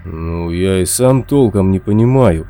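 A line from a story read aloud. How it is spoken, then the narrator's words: Mumbled. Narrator (Russian): промямлил караул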